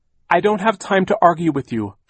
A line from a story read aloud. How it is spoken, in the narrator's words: Violet cried